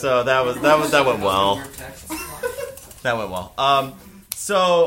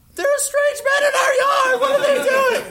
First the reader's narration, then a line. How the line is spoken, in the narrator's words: the mother screamed